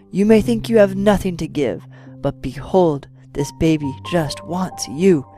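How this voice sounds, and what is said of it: Strong African accent, kind tone. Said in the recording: “continued in a strong African accent, although a thread of kindness and joy became more evident”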